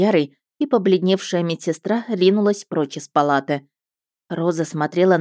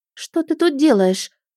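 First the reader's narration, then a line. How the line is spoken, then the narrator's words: Thin little voice, asking. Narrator (Russian): тоненьким голоском спросила она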